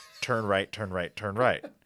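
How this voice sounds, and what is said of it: Bad Matthew McConaughey impression. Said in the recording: “my impression of Matthew McConaughey if he were a GPS ... terrible Matthew McConaughey impression”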